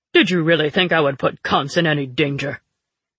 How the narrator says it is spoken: Telamane asked scornfully

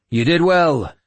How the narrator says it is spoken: I shouted

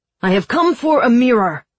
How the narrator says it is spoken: he shouted

